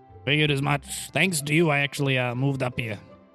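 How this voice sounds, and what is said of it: Old man character voice. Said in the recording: “It was his old man voice.”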